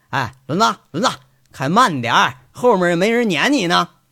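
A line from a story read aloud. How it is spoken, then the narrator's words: Laughing call. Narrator (Chinese): 杨伟在车里头啊，血笑着……喊着开车的轮子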